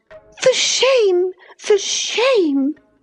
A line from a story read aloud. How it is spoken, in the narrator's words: she repeated angrily